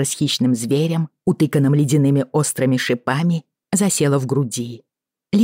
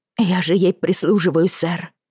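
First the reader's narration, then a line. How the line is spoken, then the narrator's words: Muttering downward. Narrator (Russian): пробормотала, обращаясь к земле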